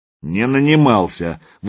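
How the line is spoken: Angry objection. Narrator (Russian): возразил Магадан сердито

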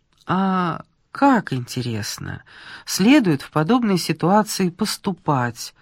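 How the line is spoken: Calm question. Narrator (Russian): спросила Ольга спокойно

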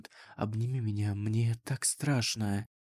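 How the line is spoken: Weak, empty repetition. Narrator (Russian): бессильно и бессмысленно повторил Эльтудин

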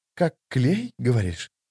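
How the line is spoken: Thoughtful female voice. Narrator (Russian): задумчиво проговорил четвертый, женский голос

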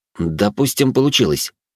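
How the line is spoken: Snort. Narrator (Russian): хмыкнул я

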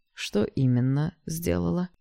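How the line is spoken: Almost gentle question. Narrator (Russian): почти ласково задал новый вопрос его отец

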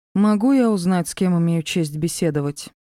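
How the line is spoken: Plain. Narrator (Russian): спросила

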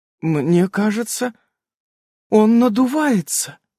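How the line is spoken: Confused. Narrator (Russian): растерянно произнесла

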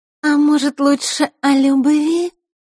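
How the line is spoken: Sweet voice. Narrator (Russian): сладким голосом произнесла Маришка

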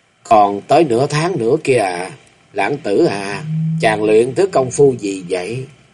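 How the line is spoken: Intimate whisper. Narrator (Vietnamese): Thập Lý Hương miệng thủ thỉ

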